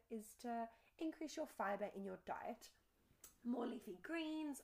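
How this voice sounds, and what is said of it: Voice cracking. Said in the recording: “my voice is breaking”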